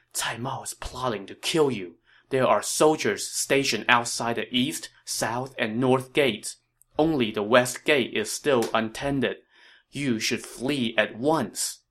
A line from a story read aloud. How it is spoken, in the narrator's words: There he whispered in Liu Bei's ear